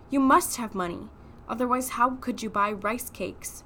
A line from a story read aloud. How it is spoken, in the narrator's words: sighed